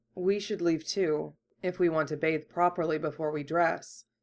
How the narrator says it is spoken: Kurama murmured

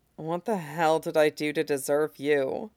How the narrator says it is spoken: Tim mutters fondly between kisses

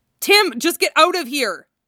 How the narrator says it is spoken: Jason yells

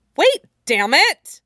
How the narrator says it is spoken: He snaps

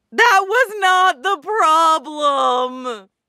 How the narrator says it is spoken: Mikurin screams

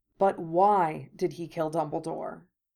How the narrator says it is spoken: Remus asked softly

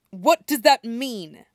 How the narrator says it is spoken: snarls

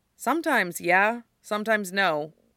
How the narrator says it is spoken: Styles says

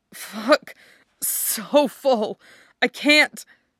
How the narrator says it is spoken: you whimper

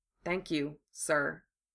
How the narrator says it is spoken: Harry said softly

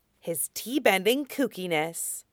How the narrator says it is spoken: Azula muttered to herself

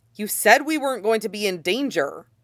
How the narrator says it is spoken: Nelly says sharply

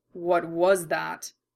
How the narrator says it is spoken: Roy asked, his voice a hungry growl in his chest

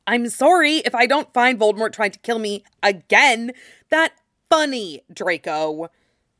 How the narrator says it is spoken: Harry snarled

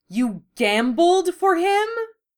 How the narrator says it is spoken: Fujioka cried

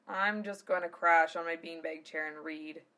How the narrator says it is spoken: Zell said with a sigh

